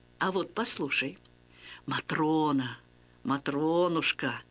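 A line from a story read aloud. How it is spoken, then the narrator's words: Tender murmuring, priest. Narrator (Russian): ласково приговаривал священник, отец Василий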